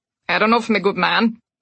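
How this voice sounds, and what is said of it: Gruff Cockney character voice. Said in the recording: “he said in a gruff Cockney accent.”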